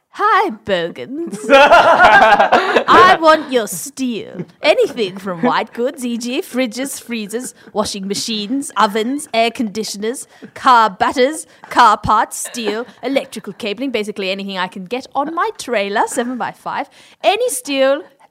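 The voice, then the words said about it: Snooty posh rich-person voice. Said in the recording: “in a snooty voice? Like it's rich person who's not.”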